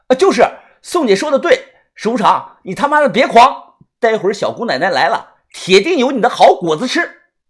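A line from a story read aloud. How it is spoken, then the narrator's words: Loud shout from afar. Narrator (Chinese): 我站得远远的，大声的喊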